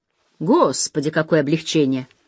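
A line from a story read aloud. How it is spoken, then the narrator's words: Loud relieved exhale. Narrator (Russian): Я шумно выдохнула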